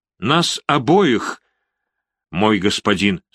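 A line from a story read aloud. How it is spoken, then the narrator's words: Plain. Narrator (Russian): сказала она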